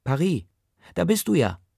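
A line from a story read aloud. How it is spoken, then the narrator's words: Female call. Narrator (German): die dazugehörige Stimme ruft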